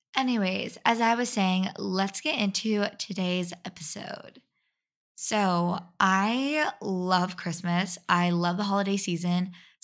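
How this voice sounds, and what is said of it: Raspy voice. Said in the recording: “my allergies has made my voice raspy.”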